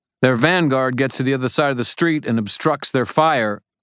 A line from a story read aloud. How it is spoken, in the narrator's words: I shouted into the sudden quiet